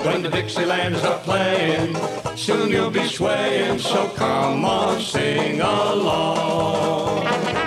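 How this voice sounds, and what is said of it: Sung imitation of a band's vocals. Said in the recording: “that was my best B-52's impersonation”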